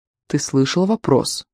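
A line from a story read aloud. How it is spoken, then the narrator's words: Soft but insistent call. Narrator (Russian): мягко, но настойчиво окликнул его Китиль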